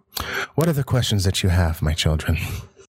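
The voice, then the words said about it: Soft, creepy old man voice. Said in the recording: “I'm making him sound probably a lot creepier than he is supposed to be. I'm trying to do a soft old man voice”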